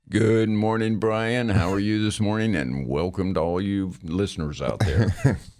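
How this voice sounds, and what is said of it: Radio announcer voice. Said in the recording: “I've got a radio voice.”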